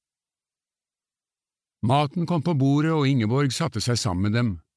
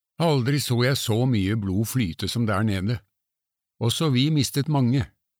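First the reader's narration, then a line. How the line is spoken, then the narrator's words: Sighing. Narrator (Norwegian): sukket Orm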